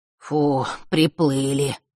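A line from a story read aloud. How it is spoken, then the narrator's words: Exhaled relief. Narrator (Russian): выдохнул Маар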